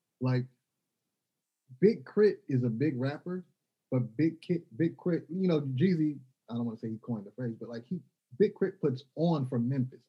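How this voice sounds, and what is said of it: Mississippi accent. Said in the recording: “every time you see me, think Mississippi. I don't give up where I am. I'm not going to change my accent.”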